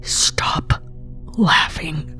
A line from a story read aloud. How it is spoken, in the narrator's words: it's a whisper as Susan's voice finally comes back